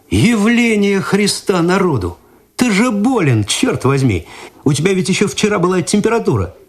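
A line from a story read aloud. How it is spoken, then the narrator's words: Astonished exclamation. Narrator (Russian): Игорь изумленно посмотрел на друга, потом перевел взгляд на Цветкова и воскликнул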